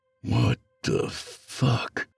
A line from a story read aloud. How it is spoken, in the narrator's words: he muttered to himself